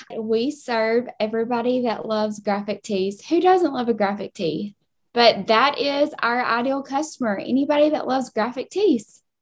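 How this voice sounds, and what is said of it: Southern US Kentucky accent. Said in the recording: “they're my Southern girls. They're my Kentucky girls with their acts coming in hot with the accent.”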